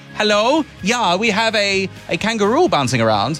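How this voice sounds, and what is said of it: Poor imitation of Dutch accent. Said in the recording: “That's a horrible Dutch accent.”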